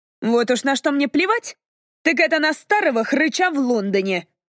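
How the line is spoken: Snapping retort. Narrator (Russian): огрызнулась Кассандра

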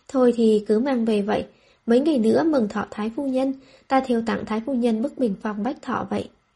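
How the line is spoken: Sighing. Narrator (Vietnamese): Lâm phu nhân thở dài nói

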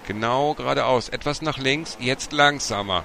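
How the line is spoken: Called out. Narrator (German): Martin rief

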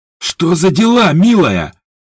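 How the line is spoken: Barking. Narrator (Russian): рявкнул Ажур

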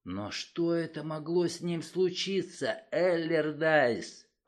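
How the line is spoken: Whisper. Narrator (Russian): прошептал я

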